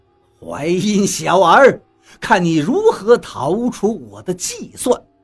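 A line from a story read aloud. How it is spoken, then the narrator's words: Loud triumphant laughter. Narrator (Chinese): 陈平与刘邦高声大笑道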